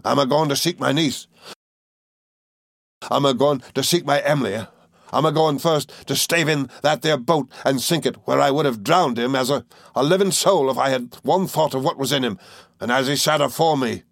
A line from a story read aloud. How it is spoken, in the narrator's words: he said wildly